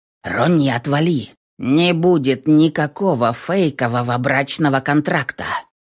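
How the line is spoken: Growled. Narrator (Russian): рыкнул Дизель

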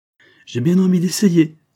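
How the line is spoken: Exclaiming. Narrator (French): s'écria Vibert

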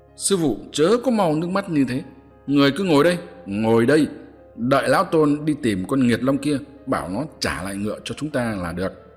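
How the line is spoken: Angry loud voice. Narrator (Vietnamese): Hành giả thấy sư phụ khóc lóc như thế thì không khỏi tức giận, lớn tiếng nói

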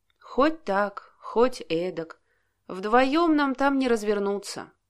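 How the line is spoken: Gloomy reply. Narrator (Russian): мрачно ответил Алексей

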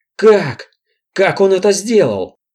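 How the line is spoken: Exclaimed. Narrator (Russian): воскликнул племянник

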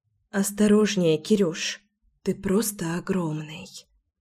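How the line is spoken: Whisper. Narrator (Russian): шепнула Леся

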